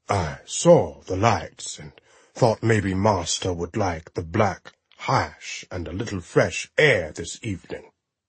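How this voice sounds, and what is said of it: Wavering posh British BBC accent. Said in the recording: “a vacillating BBC Masterpiece Theater accent”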